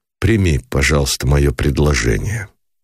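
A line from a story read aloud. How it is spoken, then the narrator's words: Cold interruption. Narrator (Russian): холодно прервал Никитин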